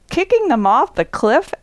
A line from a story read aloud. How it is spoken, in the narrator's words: exclaimed Leopard